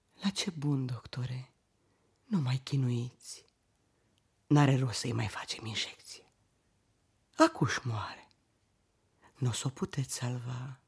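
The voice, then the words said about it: Whispering. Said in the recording (Romanian): “șoptit”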